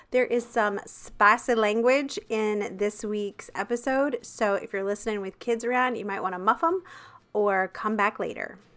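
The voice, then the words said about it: Congested, sick-sounding voice. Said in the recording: “I was dealing with a gnarly sinus infection, and so my voice sounds awful. It sounds awful”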